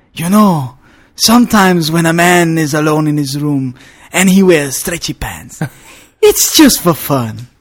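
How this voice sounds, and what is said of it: Dry Mexican accent. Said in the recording (Danish): “den mexicanske accent, og den der helt tørre måde, han leverer det på”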